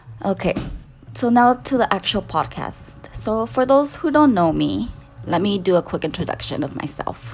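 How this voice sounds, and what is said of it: Heavy Latina accent, shaky voice. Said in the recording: “my shaky voice ... my heavy Latina accent tends to come out a lot”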